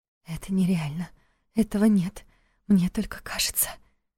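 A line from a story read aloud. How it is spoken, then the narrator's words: Whispered. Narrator (Russian): шептала Лиля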